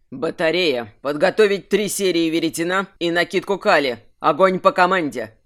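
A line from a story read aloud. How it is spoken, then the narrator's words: Growled command. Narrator (Russian): Даже не сказал, а прорычал Кирсан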